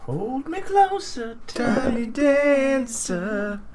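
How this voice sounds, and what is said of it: Sung falsetto imitating a singer. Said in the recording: “And that's falsetto Elton John.”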